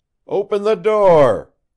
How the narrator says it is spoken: cried Locke again

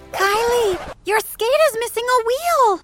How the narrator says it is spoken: Bridget screamed

